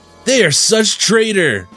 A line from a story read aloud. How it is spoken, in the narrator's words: Baxter yelled